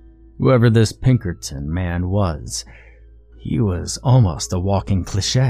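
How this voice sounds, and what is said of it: Usual voice. Nothing is said of it.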